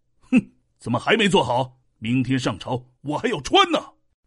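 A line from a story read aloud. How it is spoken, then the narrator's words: Angry shout. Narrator (Chinese): 齐桓公十分生气，怒喝道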